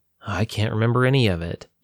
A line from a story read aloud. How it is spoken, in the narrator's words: Joe sighed